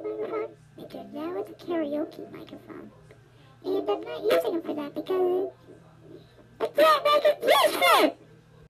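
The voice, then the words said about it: Electronically altered, childlike high voice. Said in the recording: “my voice sounds weird ... voice changer microphone ... it sounds like I'm a really little baby. Well, it sounds like I'm just like a four-year-old, a little girl”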